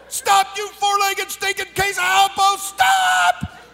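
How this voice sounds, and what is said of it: Yelling. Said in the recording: “I'm yelling,”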